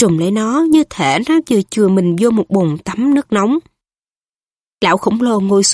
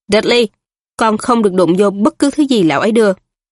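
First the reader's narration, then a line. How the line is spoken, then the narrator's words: Cold hasty scolding. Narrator (Vietnamese): Ông Dudley vội lạnh lùng nạt con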